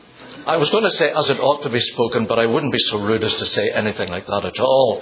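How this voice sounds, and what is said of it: British English accent. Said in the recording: “Hailing from the United Kingdom, you may not know this, but we actually do speak English.”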